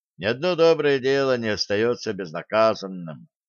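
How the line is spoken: Heavy sigh. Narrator (Russian): тяжко вздохнул Блад

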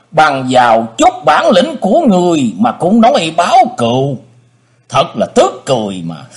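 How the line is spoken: Mocking loud laugh. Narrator (Vietnamese): Người bịt mặt cố ý cười lớn rồi lên tiếng nói

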